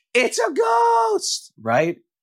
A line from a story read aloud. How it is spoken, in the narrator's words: They said, and they cried out in fear